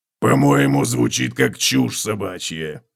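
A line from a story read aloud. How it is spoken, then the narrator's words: Grumbled. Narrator (Russian): проворчал Готрек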